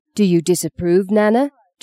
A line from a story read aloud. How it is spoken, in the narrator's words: Justine growled, ready to do battle